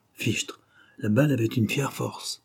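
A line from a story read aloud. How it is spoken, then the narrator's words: Murmured by everyone. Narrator (French): tous murmuraient la même phrase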